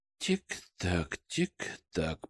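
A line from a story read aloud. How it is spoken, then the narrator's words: Quiet murmur. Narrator (Russian): проговаривал я тихо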